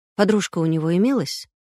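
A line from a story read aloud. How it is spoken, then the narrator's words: Plain question. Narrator (Russian): спросил Колосов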